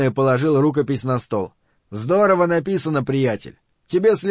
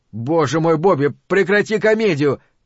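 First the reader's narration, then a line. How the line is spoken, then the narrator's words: Shout. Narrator (Russian): крикнул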